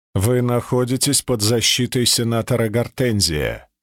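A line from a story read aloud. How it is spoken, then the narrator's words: Dry statement. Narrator (Russian): сухо заявил Костлявый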